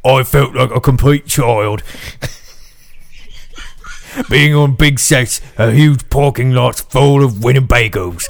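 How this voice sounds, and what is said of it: Put-on British accent. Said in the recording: “can't you read that in a British accent? ... Yeah, I can do my best like Bill Sykes.”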